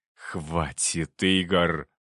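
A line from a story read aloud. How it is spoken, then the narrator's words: Hiss. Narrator (Russian): прошипел он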